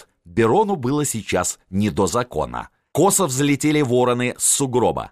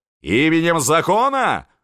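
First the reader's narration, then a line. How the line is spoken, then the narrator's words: Yelling from behind, prosecutor. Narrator (Russian): вопил сзади генерал-прокурор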